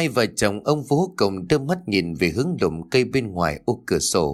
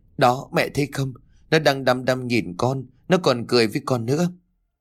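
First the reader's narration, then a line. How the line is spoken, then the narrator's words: Trembling, frightened. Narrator (Vietnamese): Kim Ngân đưa đôi tay run rẩy rồi nói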